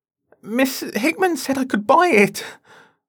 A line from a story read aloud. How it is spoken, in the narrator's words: cried, my eyes filling with tears